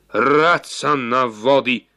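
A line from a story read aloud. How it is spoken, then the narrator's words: Man exclaiming. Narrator (Slovenian): je vzkliknil mož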